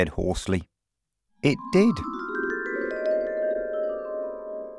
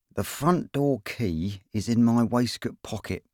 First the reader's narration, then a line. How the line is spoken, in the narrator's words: said Ron through clenched teeth